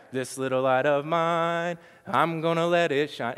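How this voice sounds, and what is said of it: Singing with a Southern twang. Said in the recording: “there's a little twang to mine ... A little twang, right? ... A little bit of twang that goes with it”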